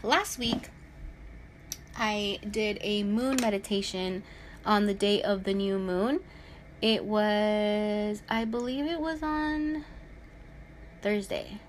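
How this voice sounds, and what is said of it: Speaking really slowly. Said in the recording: “I'm talking really slowly.”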